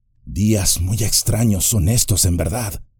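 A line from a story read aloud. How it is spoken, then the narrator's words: Murmur. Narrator (Spanish): murmuró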